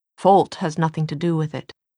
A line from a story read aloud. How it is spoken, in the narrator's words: Jem said